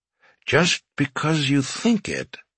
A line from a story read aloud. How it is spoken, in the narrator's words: he murmured to himself